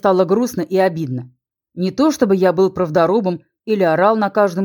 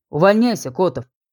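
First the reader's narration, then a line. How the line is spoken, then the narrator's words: Calm advice. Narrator (Russian): спокойно посоветовал полковник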